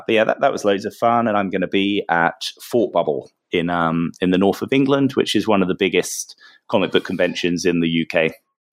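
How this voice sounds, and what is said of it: Slightly strained, worn-out voice. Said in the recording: “my voice is starting to give out a little bit after 4 days of talking nonstop and shouting over people in bars”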